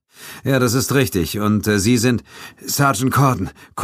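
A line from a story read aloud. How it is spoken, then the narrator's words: Panting, out of breath. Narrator (German): keuchte er leicht außer Atem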